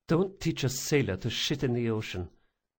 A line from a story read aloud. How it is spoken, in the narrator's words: she muttered